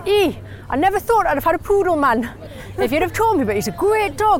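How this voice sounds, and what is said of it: Imitated Geordie accent. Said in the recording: “you were doing your dad's accent there and he sounds quite Geordie.”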